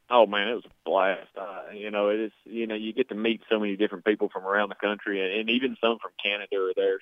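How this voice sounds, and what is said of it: Heavy Southern US drawl. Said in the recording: “you got that heavy redneck country boy accent ... I've got a pretty badly drawn-out southern drawl ... I got the Jeff Foxworthy accent”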